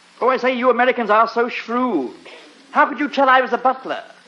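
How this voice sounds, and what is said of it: English butler accent. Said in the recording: “I'm English ... my English accent”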